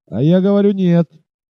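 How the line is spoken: Haughty shout. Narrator (Russian): надменно крикнул индеец

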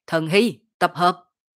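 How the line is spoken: Shout. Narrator (Vietnamese): Dương Khai hét

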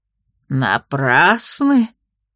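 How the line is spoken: Arrogant, spiteful smirk. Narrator (Russian): Вдруг высокомерно и злобно заухмылялся ее родственник

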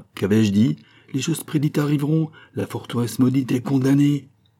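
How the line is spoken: Shouting. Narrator (French): en criant

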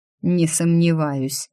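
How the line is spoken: Grim, through teeth. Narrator (Russian): мрачно процедил лорд

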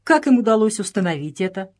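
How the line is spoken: Plain. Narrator (Russian): спросил Джордж

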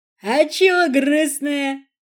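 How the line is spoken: Joyful drunken exclamation. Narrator (Russian): обдав запахом перегара, воскликнул радостно

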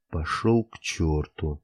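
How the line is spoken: Muttering under breath. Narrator (Russian): бормочу себе под нос

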